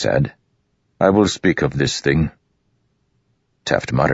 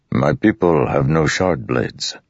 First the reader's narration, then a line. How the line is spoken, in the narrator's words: Rock said in his low, rumbling voice